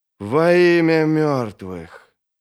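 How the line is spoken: Soft, thoughtful. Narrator (Russian): Это прозвучало мягко, задумчиво

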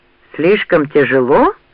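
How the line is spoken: Menacing question. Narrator (Russian): грозно спросил Ранд

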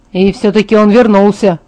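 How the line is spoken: Grumbling. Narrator (Russian): пробурчал Джейкоб

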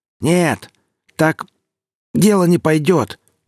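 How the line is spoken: Shouted. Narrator (Russian): прокричал Гриф и едва удержался, чтобы не закашляться

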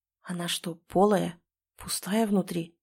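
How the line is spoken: Whispered. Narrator (Russian): прошептал Гена

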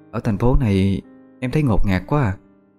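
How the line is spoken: Sad. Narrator (Vietnamese): Vẫn với giọng điệu buồn rầu, Hà Anh nói

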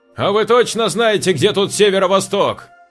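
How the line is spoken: Shouted. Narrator (Russian): крикнул ему Саша

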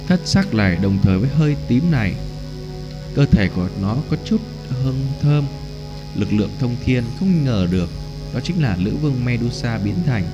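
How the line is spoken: Gloomy sighing mutter. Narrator (Vietnamese): Dực lão buồn bực, thở nhẹ một hơi lẩm bẩm

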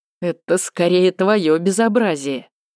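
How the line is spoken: Smirking, suppressing laughter. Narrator (Russian): усмехнулся Кирьян, хотя едва сдерживался, чтобы не рассмеяться в голос

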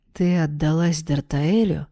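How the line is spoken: Gloomy remark. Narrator (Russian): мрачно заметил Альрем

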